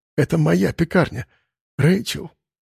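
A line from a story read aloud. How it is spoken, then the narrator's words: Near whisper. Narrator (Russian): почти шепотом повторил он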